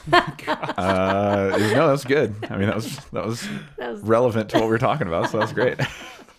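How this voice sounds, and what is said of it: Deep, sick-sounding voice. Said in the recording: “I'm like getting over a sickness, so I've got that real deep voice on this.”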